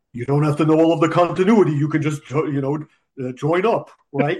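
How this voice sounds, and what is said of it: Cartoonish Scooby-Doo-like voice. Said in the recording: “your imitation of Dan Didio. It sounds like Scooby-Doo.”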